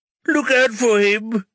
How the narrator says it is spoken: the other patient sobs

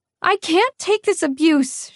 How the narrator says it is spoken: wailed, voice pitched to shatter windows

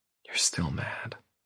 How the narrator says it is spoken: she whispers

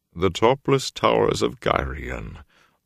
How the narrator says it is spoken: Loyal murmured sadly

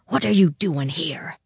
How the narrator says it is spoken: whispered hoarsely across it to her

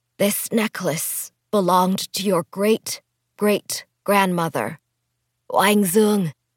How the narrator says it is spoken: her mother said in a raspy voice

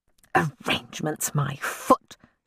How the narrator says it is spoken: she said, her voice seething

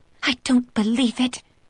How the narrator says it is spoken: Lena hisses

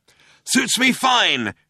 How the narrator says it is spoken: shouted Zaphod back

